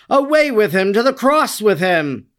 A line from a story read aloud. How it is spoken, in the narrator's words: they and all the people, as if beside themselves with fury, cried out violently